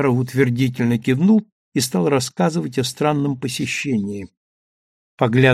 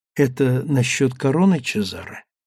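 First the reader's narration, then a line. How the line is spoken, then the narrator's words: Whisper. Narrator (Russian): шепнула Сандра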